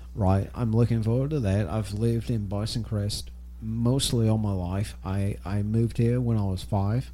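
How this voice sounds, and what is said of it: Australian accent. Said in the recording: “your accent made me think otherwise... Australia, maybe?... Yeah, New South Wales, Australia.”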